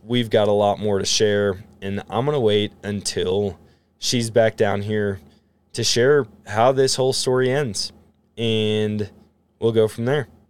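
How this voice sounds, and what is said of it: Voice getting hoarse. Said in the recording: “my voice is starting to get hoarse.”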